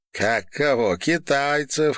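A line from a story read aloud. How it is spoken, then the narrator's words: Laughing. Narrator (Russian): хохотнула норвежка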